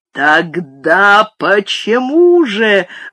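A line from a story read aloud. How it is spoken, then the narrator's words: Sudden roar. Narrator (Russian): внезапно взревел он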